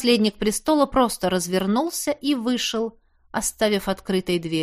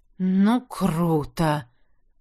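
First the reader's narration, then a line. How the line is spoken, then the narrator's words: Breathed out. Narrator (Russian): выдохнул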